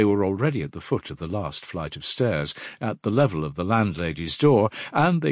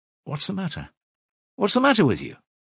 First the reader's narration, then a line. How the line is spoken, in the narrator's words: Razumihin asked anxiously